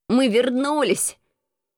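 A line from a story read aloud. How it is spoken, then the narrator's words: Trembling exclamation. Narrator (Russian): воскликнул Крыса дрожащим голосом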